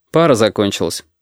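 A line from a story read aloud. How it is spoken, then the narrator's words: Dry explanation. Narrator (Russian): сухо объяснил Костя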